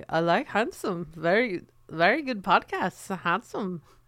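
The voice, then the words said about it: Poor imitation of Dutch accent. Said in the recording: “I'm not nailing the Dutch accent ... You really aren't.”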